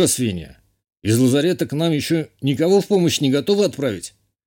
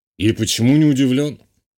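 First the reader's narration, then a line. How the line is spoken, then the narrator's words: Scoffing snort. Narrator (Russian): хмыкнул полковник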